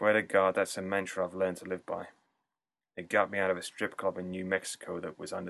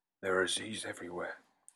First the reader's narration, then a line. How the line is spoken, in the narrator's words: said in a low voice